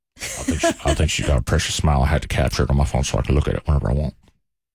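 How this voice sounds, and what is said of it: Old man voice. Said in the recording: “great old man voice”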